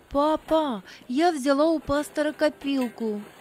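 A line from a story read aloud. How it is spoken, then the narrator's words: Plain. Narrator (Russian): сказала она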